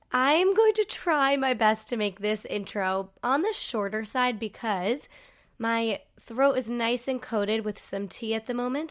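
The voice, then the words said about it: Nasal, congested sick voice. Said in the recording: “my voice sounds very soothing right now ... I think it sounds pretty smooth, but I'm very nasally. I'm unfortunately sick at the moment ... I personally really hate the sound of a sick”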